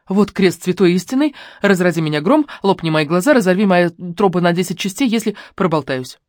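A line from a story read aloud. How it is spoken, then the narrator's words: Rapid patter. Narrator (Russian): протараторила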